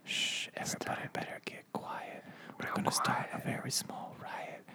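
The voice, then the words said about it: Whispered rap. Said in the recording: “has anyone ever done raps while whispering? ... We're whispering.”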